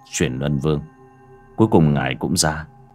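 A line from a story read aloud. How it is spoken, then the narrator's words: Soft. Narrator (Vietnamese): Bác cổ miệng khẽ nói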